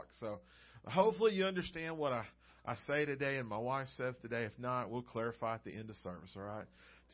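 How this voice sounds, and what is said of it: Southern Georgia accent. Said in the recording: “I haven't had anyone make fun of my accent yet ... I'm from Georgia”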